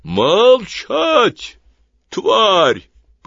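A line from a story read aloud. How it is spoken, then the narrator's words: Booming voice. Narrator (Russian): прогремел голос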